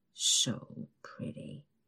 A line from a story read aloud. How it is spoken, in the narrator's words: he mumbles